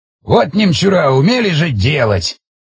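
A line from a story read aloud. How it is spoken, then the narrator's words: Scoffing grunt. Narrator (Russian): хмыкнул Эдик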